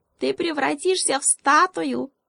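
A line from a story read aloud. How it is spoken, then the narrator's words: Tiny squeak. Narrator (Russian): пискнул какой-то ежонок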